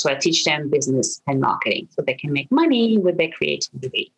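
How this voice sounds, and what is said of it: French accent speaking English. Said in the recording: “I'm originally from France. You might hear this weird accent I have.”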